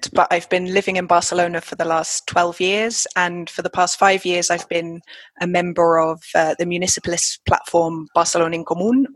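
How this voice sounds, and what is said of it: London English accent. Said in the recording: “I'm originally from London, hence the accent”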